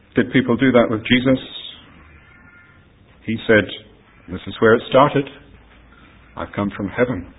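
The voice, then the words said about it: Mixed Australian accent. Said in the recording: “my accent comes from. And if I say Australia, then you'll say, oh, that doesn't quite sound like that. And then I say, well, I've been here and I've been there, and it's all mixed in together.”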